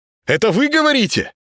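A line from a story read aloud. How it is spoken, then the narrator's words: Loud shout. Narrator (Russian): Плохо слыша себя, с непривычки крикнул Володаров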